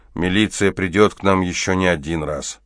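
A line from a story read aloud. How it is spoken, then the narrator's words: Displeased. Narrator (Russian): Антонов сказал недовольным голосом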